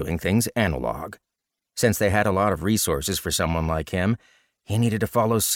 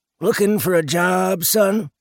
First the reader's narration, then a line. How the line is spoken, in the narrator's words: an old man sitting at one of the benches in the gazebo called out